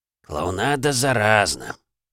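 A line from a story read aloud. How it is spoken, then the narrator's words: Sigh. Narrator (Russian): вздохнул Лев Витаутович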